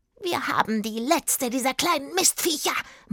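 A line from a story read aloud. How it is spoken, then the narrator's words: Smoky croaking witch voice. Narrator (German): meinte die Hexe mit ihrer rauchig krächzenden Stimme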